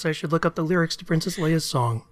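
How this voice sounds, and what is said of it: Soft, soothing voice. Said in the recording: “In my soothing voice,”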